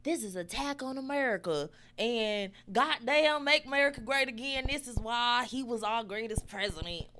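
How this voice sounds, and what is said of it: Exaggerated stereotypical American accent. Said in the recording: “you did that a little too good. ... It's my favorite go-to accent. That's how I feel like people from out of this country think we talk.”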